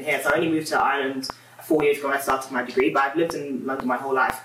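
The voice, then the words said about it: English accent. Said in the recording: “you can tell from my accent, I'm from England”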